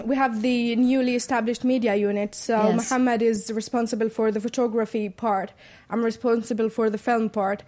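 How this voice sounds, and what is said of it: English accent. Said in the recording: “her English accent”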